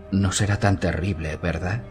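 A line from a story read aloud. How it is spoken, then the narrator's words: Whispered. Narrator (Spanish): susurró Penny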